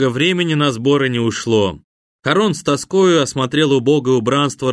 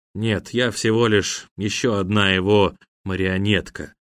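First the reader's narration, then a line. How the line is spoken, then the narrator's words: Calm reply. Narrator (Russian): спокойно ответил апологет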